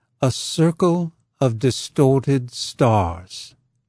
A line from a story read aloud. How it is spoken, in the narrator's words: Professor Wright said slowly